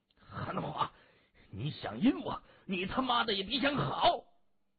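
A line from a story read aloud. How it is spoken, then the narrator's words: Furious roaring. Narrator (Chinese): 李恩伯连吼两声，他气急败坏的把手机摔了一个稀碎，咬牙切齿的咆哮着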